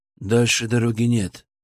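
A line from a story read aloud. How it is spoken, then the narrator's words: Flat, colorless voice. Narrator (Russian): произнес один из парней бесцветным голосом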